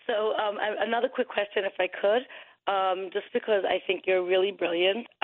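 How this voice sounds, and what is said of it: Brooklyn accent. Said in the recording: “A Jewish Orthodox woman from Brooklyn, if my accent doesn't give me away.”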